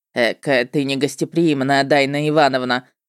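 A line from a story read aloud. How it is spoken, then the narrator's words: Mocking remark. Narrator (Russian): насмешливо отметил чужак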